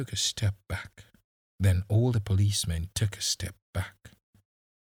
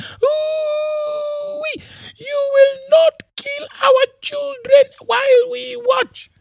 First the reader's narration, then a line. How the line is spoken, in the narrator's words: One woman screamed at the policeman